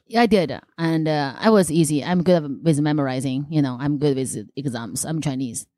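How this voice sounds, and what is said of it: Noticeable foreign accent. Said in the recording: “still have this accent”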